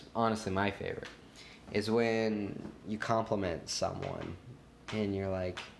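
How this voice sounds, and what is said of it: Usual voice. Nothing is said of it.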